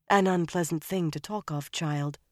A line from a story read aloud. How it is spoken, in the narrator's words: Shiryam said finally and softly